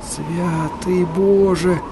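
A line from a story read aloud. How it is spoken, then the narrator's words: Mumbled. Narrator (Russian): пробормотал Берти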